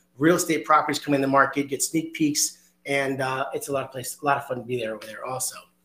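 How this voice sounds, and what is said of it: Hoarse voice. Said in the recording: “Excuse my voice today, a little hoarse, getting over a cold”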